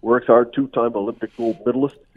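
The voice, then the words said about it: Bad imitation of another person's voice. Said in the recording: “that's my bad Mike Babcock impression.”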